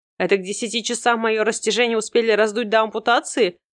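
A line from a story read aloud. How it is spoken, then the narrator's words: Laughing reply. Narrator (Russian): продолжала смеяться я, отвечая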